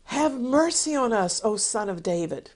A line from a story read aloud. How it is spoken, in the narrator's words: they cried out